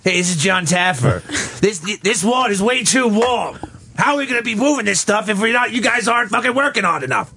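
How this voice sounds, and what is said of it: Imitates another person's voice. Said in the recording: “do that voice ... he's going to be John Taffer”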